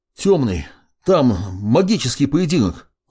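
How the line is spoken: Breathless, forced words. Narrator (Russian): выдавил, хватая ртом воздух

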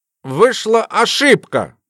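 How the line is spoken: Forced out. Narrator (Russian): выдавил из себя Жидунов

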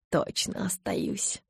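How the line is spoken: Muttering. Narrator (Russian): пробормотал он

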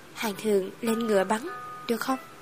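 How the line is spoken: Quiet voice. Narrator (Vietnamese): Ta nhỏ giọng nói

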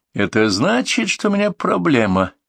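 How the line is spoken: Sad. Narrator (Russian): печально сказал Архипов

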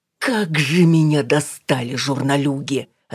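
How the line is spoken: Silent inner growl. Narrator (Russian): рычала Алина мысленно

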